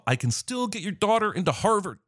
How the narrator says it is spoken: As a last gasp, he yells to Bob

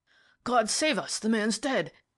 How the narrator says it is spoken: exclaimed the inspector in a shocked voice

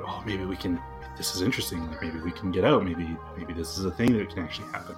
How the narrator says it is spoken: some people murmuring

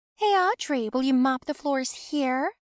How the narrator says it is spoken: she asked loudly

